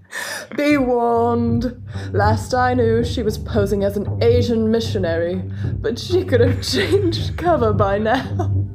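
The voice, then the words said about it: Reading in a put-on accent. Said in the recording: “That accent for it was perfect.”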